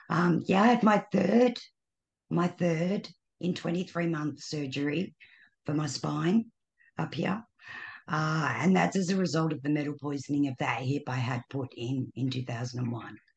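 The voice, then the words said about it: Slightly raspy, tired voice. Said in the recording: “Your voice is a little raspy... My voice, it gets tired.”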